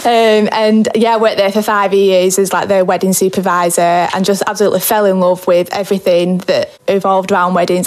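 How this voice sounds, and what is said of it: Darwen, northern English accent. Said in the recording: “I was working at a hotel in Darwen, where I get my accent from.”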